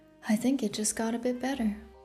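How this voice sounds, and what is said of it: Low, seductive voice. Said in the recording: “said in a low voice”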